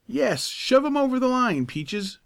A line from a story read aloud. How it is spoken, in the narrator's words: cried Tom